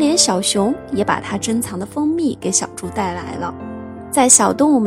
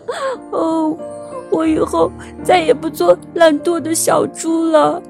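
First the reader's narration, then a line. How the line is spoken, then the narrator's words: Loud crying piglet. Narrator (Chinese): 小猪大声地哭了起来，边哭边对大家说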